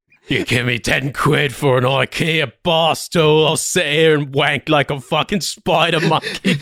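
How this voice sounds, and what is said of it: Australian accent impression. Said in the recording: “Australian Tommy Walsh.”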